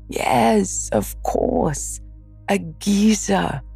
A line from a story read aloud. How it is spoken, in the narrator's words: replied, still laughing